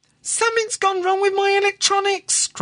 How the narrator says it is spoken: cried the mistress of the Sea Spray 2

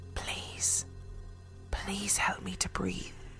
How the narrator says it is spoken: a clear voice whispered

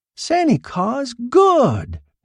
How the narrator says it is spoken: cackled

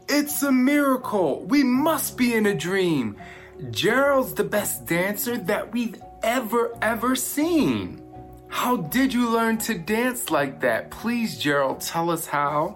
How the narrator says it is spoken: They shouted

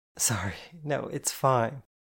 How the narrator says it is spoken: I laughed

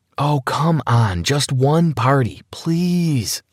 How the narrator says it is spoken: pleaded

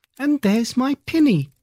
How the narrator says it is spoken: cried Lucy

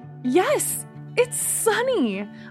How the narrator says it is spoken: cried, happily

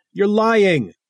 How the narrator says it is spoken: Diane screamed

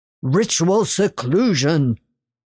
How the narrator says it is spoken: he bellowed

